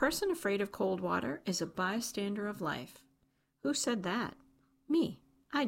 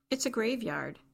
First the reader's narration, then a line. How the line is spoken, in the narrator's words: Garrett said